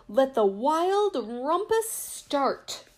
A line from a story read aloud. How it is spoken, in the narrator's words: cried Max